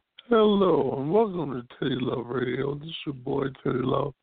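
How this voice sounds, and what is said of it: Sick, strained-sounding voice. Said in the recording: “my voice sounds a little crazy today ... a little sickness”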